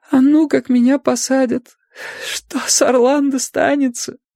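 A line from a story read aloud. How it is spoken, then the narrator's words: Sobbing question. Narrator (Russian): сквозь рыдание спрашивала она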